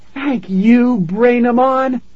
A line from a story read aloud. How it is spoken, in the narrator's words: she shouted